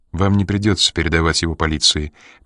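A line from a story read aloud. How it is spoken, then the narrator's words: Quiet. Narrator (Russian): тихо произнесла Энн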